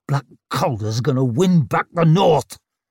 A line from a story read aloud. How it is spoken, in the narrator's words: the old man growled